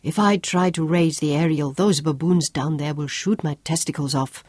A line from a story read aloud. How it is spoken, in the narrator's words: growled from amongst the rocks